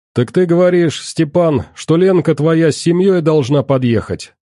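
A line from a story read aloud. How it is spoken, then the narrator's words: Loud question. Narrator (Russian): громко спросил Ваха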